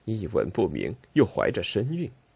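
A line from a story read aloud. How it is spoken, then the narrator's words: Muttering. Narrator (Chinese): 利杜马咕哝着说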